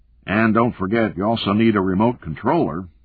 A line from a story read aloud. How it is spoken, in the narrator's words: Charlie said